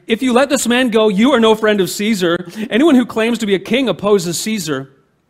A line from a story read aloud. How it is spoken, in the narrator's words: the Jewish leaders kept shouting